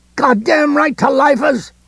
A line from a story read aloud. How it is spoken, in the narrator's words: the running man cried